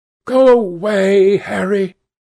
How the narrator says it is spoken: cried the lad

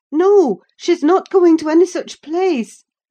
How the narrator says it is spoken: cried, struggling

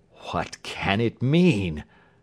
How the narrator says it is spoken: gasped

